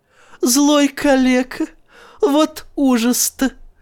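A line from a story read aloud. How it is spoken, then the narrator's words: Laughing. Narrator (Russian): засмеялась она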